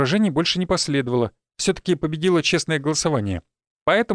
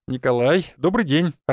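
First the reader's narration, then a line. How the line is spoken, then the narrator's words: Cheerful greeting. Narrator (Russian): радостно поприветствовал он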